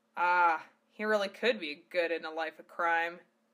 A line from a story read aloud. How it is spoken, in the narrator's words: Val chuckled